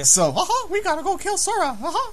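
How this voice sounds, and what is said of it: Mickey Mouse character voice. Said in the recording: “That's my Mickey impersonation.”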